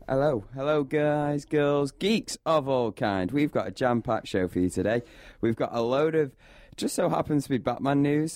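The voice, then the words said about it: Hoarse, croaky voice. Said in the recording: “I've got a bit of a frog in my throat. That's not just because I've got a cold.”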